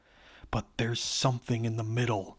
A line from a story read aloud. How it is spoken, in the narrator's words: Jessica exclaimed